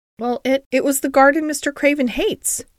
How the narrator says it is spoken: Mary said nervously

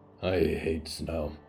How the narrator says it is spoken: Hector grunted

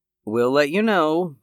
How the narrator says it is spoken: Pamela said evenly

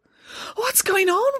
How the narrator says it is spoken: wailed Samantha

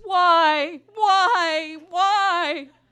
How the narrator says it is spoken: He collapses into heaving sobs and keens

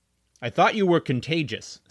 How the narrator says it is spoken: said his father

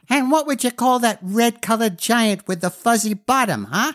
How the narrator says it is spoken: asked the little one haughtily

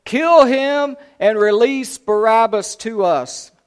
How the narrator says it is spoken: a mighty roar rose from the crowd and said

